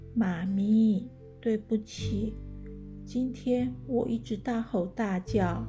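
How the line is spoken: Sleepy, very quiet. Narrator (Chinese): 贝拉又打了一次哈欠，然后很小声的说

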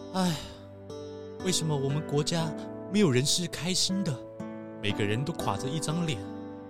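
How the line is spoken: Sad sighing prince. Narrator (Chinese): 悲伤王国的王子 越伤心，就感叹地说

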